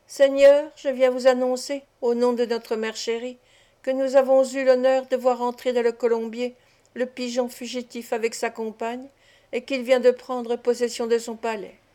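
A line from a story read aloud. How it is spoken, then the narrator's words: Grave heroic child's voice. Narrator (French): l'enfant nous dit d'un ton grave, avec l'air d'un héros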